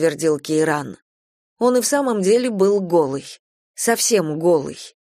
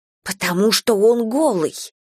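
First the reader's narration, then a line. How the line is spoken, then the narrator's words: Hiss. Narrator (Russian): прошипела я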